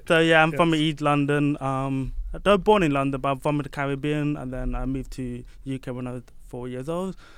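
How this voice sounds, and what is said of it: English accent. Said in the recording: “erudite manner and accent and sophisticated accent, and you are from England”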